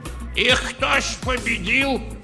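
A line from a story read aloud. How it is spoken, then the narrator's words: Old man shouting. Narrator (Russian): крикнул из рядов дед Тарас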